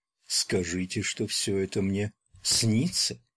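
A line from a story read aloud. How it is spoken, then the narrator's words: Distant, pensive. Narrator (Russian): произнесла Элиза каким-то далеким, задумчивым голосом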